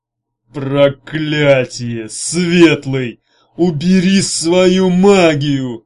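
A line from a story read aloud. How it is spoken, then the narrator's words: Growled. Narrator (Russian): прорычал он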